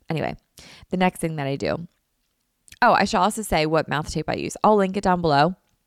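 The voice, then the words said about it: Tired, slightly nasal voice. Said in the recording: “sorry for my voice ... my voice is a bit tired ... my nose is running a little bit, so I sound a little bit nasally”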